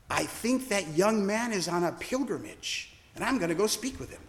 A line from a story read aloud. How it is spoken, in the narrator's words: William whispered to me